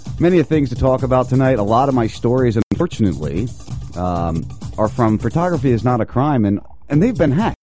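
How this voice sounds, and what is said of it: Voice sounds sick, under the weather. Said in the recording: “If you can't tell in my voice a little bit, I'm a little under the weather today”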